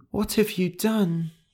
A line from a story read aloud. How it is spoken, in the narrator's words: Gentle whispered